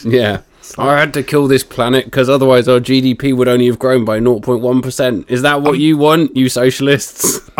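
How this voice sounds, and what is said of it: Imitates another person's voice. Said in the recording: “doing the Keir Starmer voice.”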